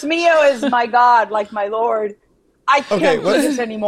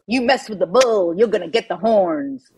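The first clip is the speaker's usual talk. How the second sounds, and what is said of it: Put-on Southern drawl accent. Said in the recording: “the most Southern drawl expression... you got to nail this accent”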